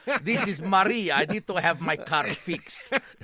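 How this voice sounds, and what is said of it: Put-on Romanian accent, Maria Ospenskaya. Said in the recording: “disguise her voice ... she'd try like a Romanian accent. Who was the lady that always played in those drums? Maria Ospenskaya.”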